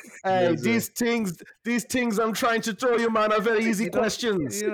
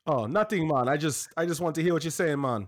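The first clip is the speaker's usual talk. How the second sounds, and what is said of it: Put-on Jamaican accent. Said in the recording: “That's racist. ... She's not Jamaican. ... make that accent”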